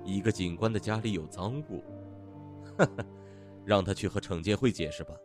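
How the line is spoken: Laughing. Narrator (Chinese): 麦克笑着说

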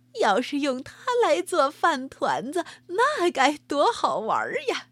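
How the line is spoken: Laughing. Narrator (Chinese): 他笑着说

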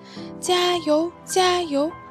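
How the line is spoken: Many voices cheering together. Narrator (Chinese): 许许多多个小东西在齐声高喊

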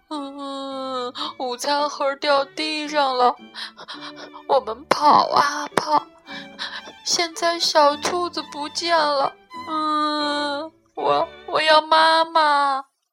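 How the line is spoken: Crying child. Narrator (Chinese): 比利哭起来

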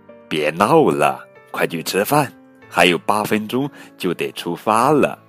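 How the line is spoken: Mother laughing. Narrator (Chinese): 妈妈笑道

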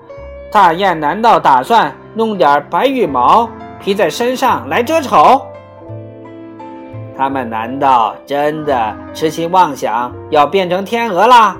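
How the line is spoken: Swans shouting in chorus. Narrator (Chinese): 四周的天鹅齐声喊道

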